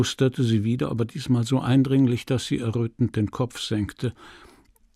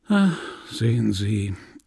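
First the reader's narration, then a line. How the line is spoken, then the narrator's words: Melancholy voice. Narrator (German): erwiderte mit melancholischer Stimme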